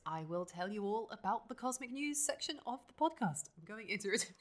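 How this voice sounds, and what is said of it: Put-on special presenting voice. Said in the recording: “I put on this voice during this part. And in my cosmic news voice”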